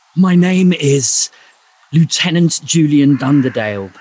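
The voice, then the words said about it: Put-on English accent. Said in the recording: “he speaks with an English accent.”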